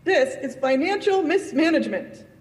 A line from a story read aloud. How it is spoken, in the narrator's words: cried Tracy